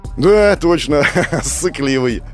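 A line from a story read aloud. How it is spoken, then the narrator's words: Laughing. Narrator (Russian): Гоша рассмеялся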